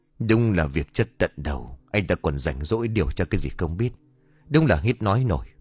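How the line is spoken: Muttering to himself. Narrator (Vietnamese): Huy cậu tự lẩm bẩm một mình

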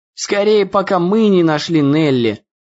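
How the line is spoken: Grumbled. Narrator (Russian): проворчал Дэн

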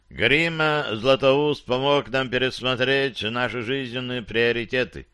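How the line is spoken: Plain. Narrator (Russian): сказал стражник

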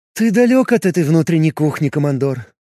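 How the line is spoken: Sigh. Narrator (Russian): вздохнула Венесса

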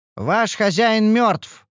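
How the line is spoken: Loud announcement. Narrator (Russian): объявила она громко

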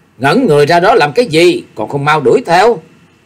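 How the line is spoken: Scolding shout. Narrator (Vietnamese): quát nạt bọn hộ vệ

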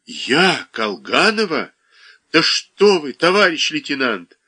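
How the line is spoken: Voice breaking, sobbing. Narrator (Russian): Слегин осекся голосом и всхлипнул

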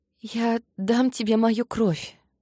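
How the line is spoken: Hoarse rasp. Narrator (Russian): прохрипела

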